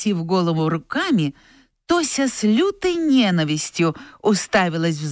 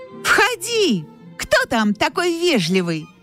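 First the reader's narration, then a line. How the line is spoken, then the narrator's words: Glad shout. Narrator (Russian): крикнула Тося, радуясь, что есть предлог оторваться от ненавистной задачки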